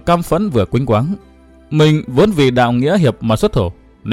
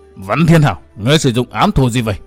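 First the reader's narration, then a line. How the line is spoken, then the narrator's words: Roaring man. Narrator (Vietnamese): Gã trung niên chột mắt gầm thét nói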